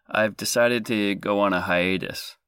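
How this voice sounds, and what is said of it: Choked-up, emotional voice. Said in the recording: “little choked up”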